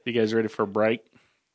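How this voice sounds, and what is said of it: Twangy accent. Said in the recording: “I slipped into my twang there.”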